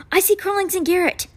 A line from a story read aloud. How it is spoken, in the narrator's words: she cried